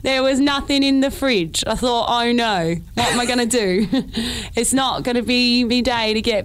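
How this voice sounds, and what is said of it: Put-on old geezer accent. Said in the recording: “I am not good at accents, so let's see how we go ... Every accent I do is Ian McKellen”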